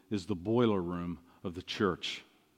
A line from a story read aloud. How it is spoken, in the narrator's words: Spurgeon said softly